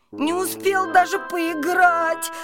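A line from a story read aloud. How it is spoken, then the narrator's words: Whining. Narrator (Russian): хныкал он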